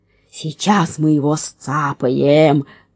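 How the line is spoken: Growled. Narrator (Russian): рычал третий разбойник

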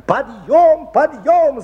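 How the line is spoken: Shouting teacher. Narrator (Russian): закричала воспитательница

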